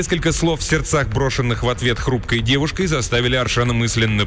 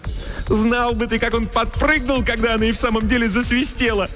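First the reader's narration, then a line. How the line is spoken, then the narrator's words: Ringing laughter. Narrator (Russian): звонко расхохоталась Селина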